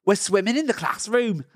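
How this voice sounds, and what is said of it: Put-on Cockney accent. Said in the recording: “The accent is Cockney.”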